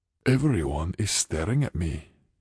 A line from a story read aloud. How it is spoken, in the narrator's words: Kevin muttered